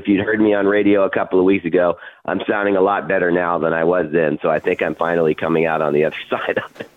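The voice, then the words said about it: Strained, impaired voice. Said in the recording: “I apologize for my voice. I've had a problem in my throat for almost 3 weeks”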